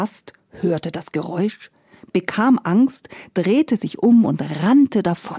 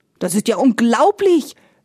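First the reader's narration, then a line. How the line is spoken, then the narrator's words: Indignant gentleman exclaiming. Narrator (German): rief der Herr empört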